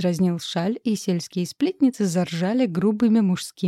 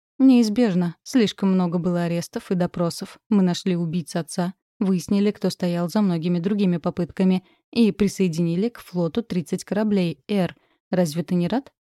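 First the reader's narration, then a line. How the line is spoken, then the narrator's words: Plain question. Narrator (Russian): спросил младший Торманс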